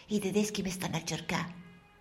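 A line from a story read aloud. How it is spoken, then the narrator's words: Whisper. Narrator (Italian): gli dico in un sussurro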